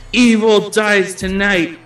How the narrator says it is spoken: Tommy is still shouting

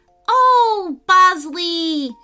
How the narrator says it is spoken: she cried

